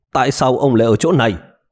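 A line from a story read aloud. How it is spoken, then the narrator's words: Displeased shouted question. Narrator (Vietnamese): đương nhiên tôi không có thái độ vui vẻ gì, quát hỏi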